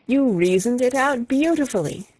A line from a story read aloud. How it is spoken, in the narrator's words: I exclaimed, in unfeigned admiration